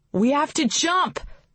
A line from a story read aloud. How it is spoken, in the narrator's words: Rin shouted at her